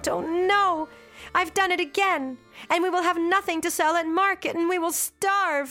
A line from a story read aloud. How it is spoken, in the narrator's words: she stopped and she cried out